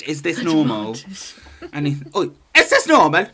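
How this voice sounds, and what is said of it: Poor attempt at Geordie accent. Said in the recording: “I tried to do a Geordie accent. Awful.”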